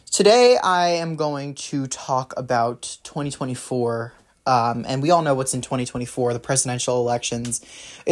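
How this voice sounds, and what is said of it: Slightly raspy voice. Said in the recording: “my voice is a little bit raspy, a little bit off”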